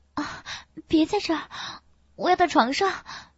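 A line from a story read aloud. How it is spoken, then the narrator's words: Hurried crying out. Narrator (Chinese): 孙静感到了后面的他气喘如牛，全身一阵阵急促的抽搐，赶紧叫唤着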